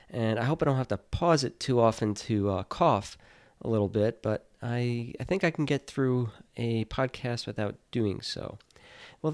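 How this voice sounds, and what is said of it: Deeper, congested voice from a cold. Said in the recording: “my cold got a little bit worse, so my voice might sound a little bit deeper today ... Perhaps it'll make me sound a little sexier”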